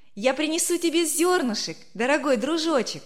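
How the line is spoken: Cheerful shout. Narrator (Russian): весело крикнула Верочка

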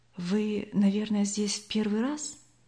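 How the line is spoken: Quiet question, young man. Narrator (Russian): все так же тихо спросил старший из юношей

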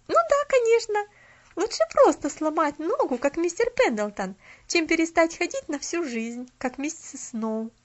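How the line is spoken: Cheerful young girl. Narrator (Russian): Весело проговорила девочка

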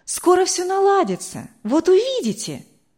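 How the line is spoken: Exclamation. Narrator (Russian): воскликнула Вера

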